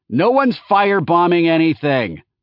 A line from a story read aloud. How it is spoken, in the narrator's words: Brent yelled back to Laertes